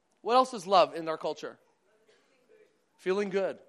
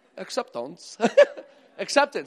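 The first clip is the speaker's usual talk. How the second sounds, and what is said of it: Put-on Canadian accent. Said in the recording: “You have to say it with a Canadian accent.”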